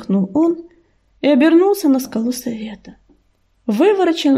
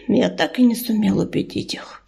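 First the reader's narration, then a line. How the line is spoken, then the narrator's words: Sighing. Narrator (Russian): вздохнул он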